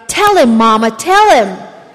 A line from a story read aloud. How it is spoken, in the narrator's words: the boy cried